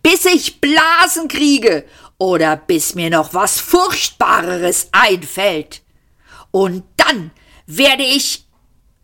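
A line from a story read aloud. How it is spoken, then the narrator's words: Shouting. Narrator (German): schrie Arthur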